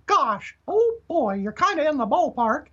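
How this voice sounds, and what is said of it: Mickey Mouse falsetto impression. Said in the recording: “I can kind of do a Mickey, you know, if you can do that falsetto.”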